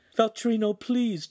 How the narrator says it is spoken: Julieta pleaded

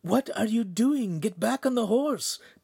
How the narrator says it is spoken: Pan cried into Hansum's ear

